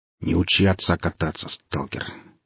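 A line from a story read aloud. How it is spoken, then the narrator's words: Unfriendly grumble. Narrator (Russian): неприветливо буркнул Толя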